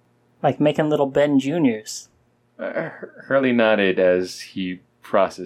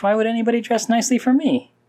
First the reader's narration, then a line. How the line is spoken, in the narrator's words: You chuckled at your own thought